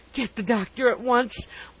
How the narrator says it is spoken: wailed Mr

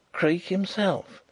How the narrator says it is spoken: he whispered across the car

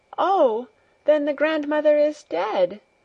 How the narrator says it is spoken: she cried out

